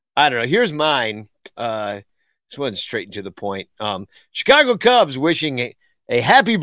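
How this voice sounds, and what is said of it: Usual voice. Nothing is said of it.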